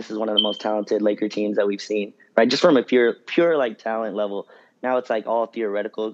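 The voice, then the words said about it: Hoarse, weakened, nearly lost voice. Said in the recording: “apologies for my voice. I lost my voice on Saturday night”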